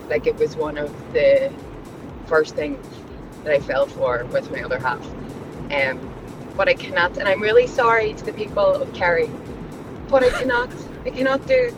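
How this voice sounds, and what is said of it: Belfast accent. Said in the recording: “I'm a Belfast girl ... I get comments on my accent all the time ... The Belfast accent there, that was nice”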